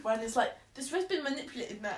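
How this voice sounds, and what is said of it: Lewis Hamilton impression, London accent. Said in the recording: “your best Lewis impression. I find Lewis's, like, voice so funny ... It's from London. Like, that's, like, just London ... I'm laughing at my impression”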